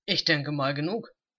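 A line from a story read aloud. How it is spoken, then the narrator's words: Grumbling mutter. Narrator (German): brummte er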